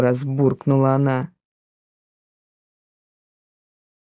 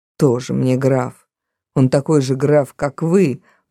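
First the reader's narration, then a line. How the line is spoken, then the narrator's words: Grumbling. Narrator (Russian): продолжала ворчать Кросби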